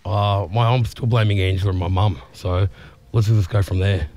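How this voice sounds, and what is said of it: Voice still sounds unwell. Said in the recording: “as you can hear by my voice, I'm back on deck, but I'm still not fully recovered from last week”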